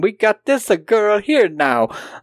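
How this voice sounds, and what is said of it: Exaggerated Italian accent. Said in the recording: “exaggerated bullshit Italian accent”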